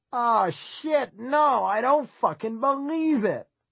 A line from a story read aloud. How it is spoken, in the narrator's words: from across the way, someone screamed